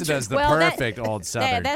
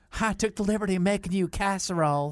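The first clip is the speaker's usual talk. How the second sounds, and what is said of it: Put-on old Southern woman accent. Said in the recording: “Did you hear that accent? ... That was pretty good. That was kind of bad. ... Why would you do it as an old Southern white woman?”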